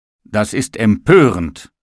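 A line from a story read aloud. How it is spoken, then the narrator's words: Calling out. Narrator (German): rief der Tisch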